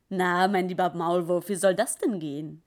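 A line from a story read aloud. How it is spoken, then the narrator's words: Laughing. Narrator (German): Der Weihnachtsbär lachte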